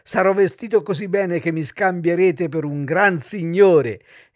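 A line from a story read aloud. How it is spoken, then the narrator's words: Laughing. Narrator (Italian): soggiunse ridendo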